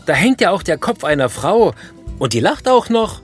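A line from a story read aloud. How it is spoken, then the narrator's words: Shouting. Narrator (German): schreit der Besucher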